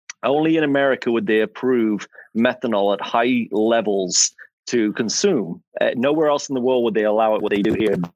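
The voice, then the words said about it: English accent. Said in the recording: “as you can tell from my accent, I am not from America. I'm English”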